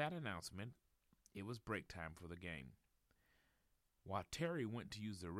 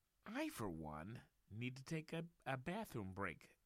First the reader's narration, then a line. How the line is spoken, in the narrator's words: exclaimed Terry